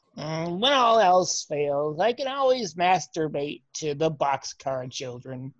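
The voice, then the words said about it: Nerdy voice. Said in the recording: “your accent is nerd.”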